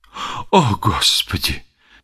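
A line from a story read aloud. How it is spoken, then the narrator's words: Heavy sigh. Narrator (Russian): тяжело вздохнул Арборея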